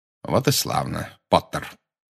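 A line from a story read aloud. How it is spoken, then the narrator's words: Cold. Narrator (Russian): холодно сказал Снегг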